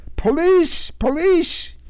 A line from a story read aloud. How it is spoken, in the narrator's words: shouted into the wrong end of it